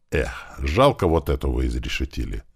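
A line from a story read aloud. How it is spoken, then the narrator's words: Sighing. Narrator (Russian): вздохнул Туман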